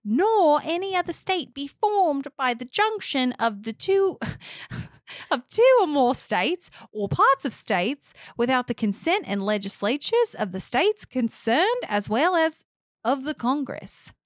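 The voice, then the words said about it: Put-on Australian accent. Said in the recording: “Your Australian accent.”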